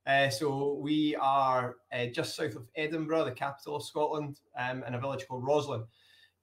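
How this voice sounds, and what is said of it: Scottish accent. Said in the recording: “as you'll hear by my accent, it's from Scotland”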